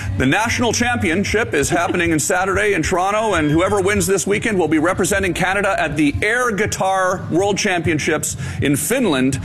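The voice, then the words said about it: Radio broadcaster announcing voice. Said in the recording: “You went into full broadcast voice ... my radio voice ... You have to do the special voice.”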